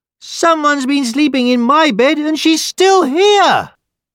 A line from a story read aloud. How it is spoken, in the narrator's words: the baby bear cried